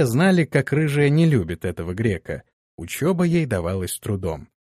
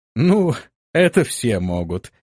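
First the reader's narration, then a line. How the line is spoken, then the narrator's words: Laughing. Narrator (Russian): рассмеялся грек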